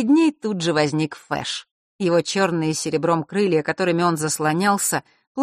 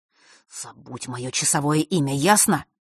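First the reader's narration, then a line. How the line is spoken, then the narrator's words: Hissing. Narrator (Russian): прошипел он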